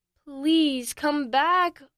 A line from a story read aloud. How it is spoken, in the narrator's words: Oliver pleaded